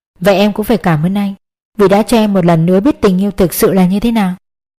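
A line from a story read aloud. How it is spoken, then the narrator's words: Gentle smiling. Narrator (Vietnamese): Mỉm cười nhẹ nhàng, cô Thúy nói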